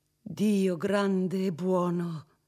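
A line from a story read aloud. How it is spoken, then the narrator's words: Exclaimed. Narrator (Italian): esclamò Federigo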